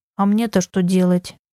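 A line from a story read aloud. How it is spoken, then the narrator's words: Mutter. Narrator (Russian): пробурчала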